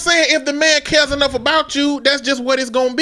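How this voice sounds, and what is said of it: Usual voice. Nothing is said of it.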